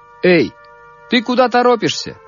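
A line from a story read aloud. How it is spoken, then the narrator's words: Soldier shouting. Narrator (Russian): крикнул солдат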